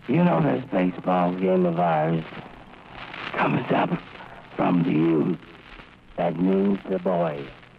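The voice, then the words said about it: Weak, hoarse, damaged voice. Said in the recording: “You know how bad my voice sounds. Well, it feels just as bad. ... dying of throat cancer”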